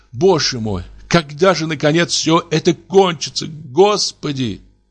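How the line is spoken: Sobbing girlish voice. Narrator (Russian): всхлипнул, как девочка, и спросил голосом плачущей девочки

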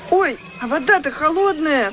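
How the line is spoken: Sudden cry. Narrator (Russian): вскрикнула вдруг Катя

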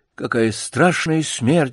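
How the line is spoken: Sighing. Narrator (Russian): вздохнул Бутон

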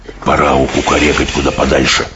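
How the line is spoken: Whisper. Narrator (Russian): прошептал БДВ

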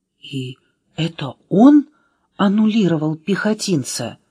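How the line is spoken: Whispered question. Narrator (Russian): почему-то шепотом спросила Аля

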